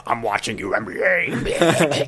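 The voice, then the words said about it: Imitates another person's voice. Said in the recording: “Alex Jonesy ... That's spot on impersonation, really. ... He gets crazy.”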